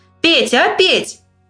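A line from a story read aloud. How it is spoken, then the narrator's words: Loud call. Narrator (Russian): громко позвал он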